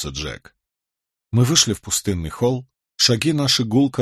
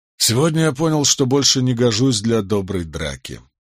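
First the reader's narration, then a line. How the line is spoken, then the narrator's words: Sad sigh. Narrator (Russian): печально вздохнул Барак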